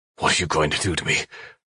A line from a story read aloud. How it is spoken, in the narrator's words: I said through clenched teeth